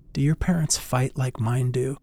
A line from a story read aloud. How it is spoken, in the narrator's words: she whispered